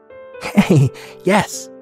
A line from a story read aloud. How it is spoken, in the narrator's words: they laughed